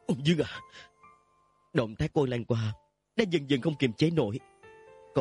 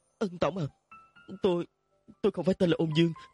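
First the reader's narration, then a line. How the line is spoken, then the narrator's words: Trembling child voice. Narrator (Vietnamese): Cậu bé run run nói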